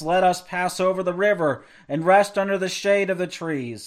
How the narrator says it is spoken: sighed, before leaving this world

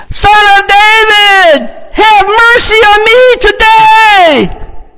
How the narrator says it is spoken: that got him riled up, and he shouted even louder

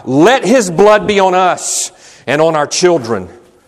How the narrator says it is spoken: So blinded were they by their envy, they shouted out

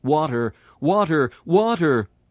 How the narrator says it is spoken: so the Christian cries out

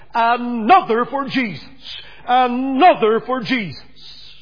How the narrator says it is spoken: with this shout

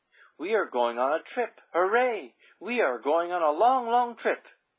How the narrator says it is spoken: The children were laughing happily, skipping and singing

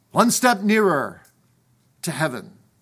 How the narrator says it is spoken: he cried out

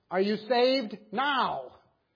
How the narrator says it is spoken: he called out again

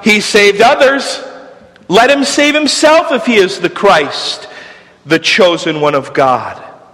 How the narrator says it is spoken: The religious leaders cried out

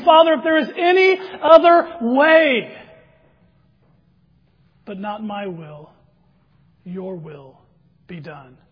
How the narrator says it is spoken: He cried out, pleading with His Father, saying

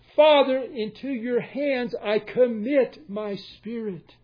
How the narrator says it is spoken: Jesus cried out

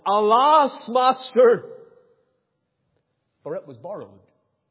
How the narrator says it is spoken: he cried and said

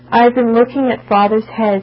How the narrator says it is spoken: would sadly reply

